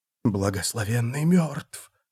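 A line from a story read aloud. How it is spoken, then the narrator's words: Crowd whispering. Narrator (Russian): шептали они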